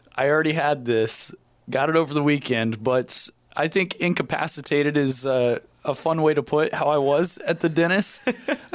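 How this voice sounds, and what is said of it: Raspy, strained voice. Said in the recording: “I can barely speak ... my raspy voice”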